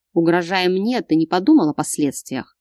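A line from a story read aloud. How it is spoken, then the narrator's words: Rumbling voice. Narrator (Russian): Пророкотал Богдан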